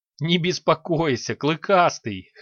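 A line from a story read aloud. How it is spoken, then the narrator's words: Short laugh. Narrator (Russian): хохотнула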